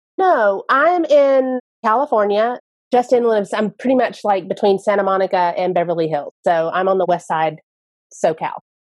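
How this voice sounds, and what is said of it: Speaks with a noticeable accent. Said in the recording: “I'm the one with the accent.”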